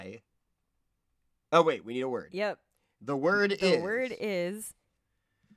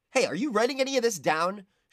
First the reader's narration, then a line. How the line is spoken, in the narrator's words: She called to the stenographer